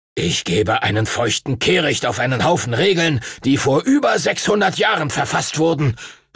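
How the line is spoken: Angry shout. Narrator (German): rief Master Duncan wütend

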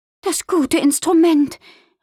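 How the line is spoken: Worried exclamation. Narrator (German): rief sie besorgt aus

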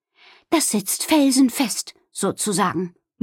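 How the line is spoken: Satisfied murmur. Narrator (German): murmelte sie zufrieden

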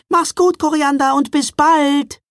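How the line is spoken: Called out. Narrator (German): rief sie

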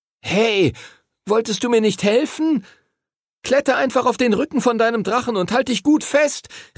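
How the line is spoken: Calling out. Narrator (German): rief Henry ihm zu

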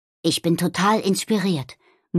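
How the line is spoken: Murmuring. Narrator (German): murmelte Nobby

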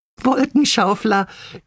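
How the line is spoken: Giggling together. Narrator (German): kicherten Bibi, Bini und Bonnie

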